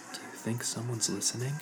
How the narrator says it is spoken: whispered

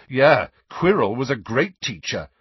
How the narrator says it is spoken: said Harry loudly

